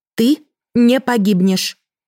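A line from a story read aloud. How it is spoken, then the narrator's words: Stern, curt. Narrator (Russian): отрезала строго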